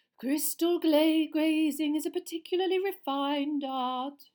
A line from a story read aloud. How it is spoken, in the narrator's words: she said dreamily